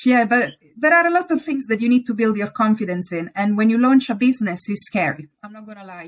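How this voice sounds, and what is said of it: Italian accent in English. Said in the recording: “I'm not sounding British ... they're being Italian ... please don't hide your beautiful accent.”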